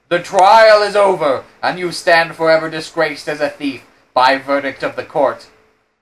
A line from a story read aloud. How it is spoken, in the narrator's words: exclaiming